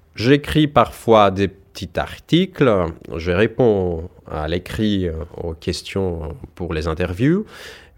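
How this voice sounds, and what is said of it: Foreign accent speaking French. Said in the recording (French): “à l'oral je me débrouille, j'ai mon accent ... Ça peut être euh, charmant, ça peut être exotique”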